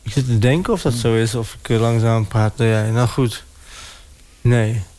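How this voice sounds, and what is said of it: Sallands eastern Dutch accent, swallowed letters. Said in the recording (Dutch): “ik heb een Sallands accent... Dus mensen denken altijd van, is die jongen verkouden of zo? Maar dat is gewoon omdat ik uit het oosten kom. Dus wij slikken wel eens een letter in.”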